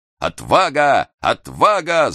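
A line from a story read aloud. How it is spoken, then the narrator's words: Shout. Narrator (Russian): закричал Хролл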